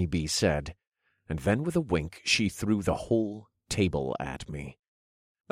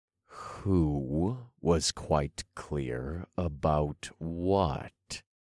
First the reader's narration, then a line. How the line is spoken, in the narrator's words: I demanded